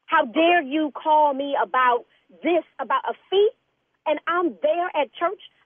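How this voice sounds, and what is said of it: Raised, agitated voice. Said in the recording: “raising your voice at me ... Did you just raise your voice at me? ... you, got to calm down a little bit”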